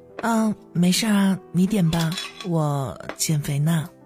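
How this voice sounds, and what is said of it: Quiet, soft-spoken line. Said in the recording (Chinese): “小声说了一句”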